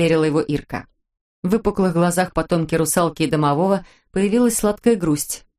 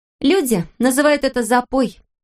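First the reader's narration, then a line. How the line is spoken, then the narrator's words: Stern. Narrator (Russian): строго сказала Ирка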